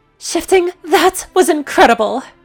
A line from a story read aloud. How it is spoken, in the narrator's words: She exclaimed